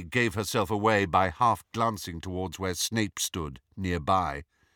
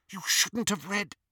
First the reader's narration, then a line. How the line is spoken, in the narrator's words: whispered Petunia